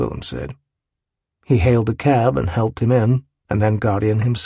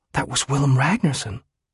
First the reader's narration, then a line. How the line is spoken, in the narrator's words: Two women, one of them whisper excitedly to the other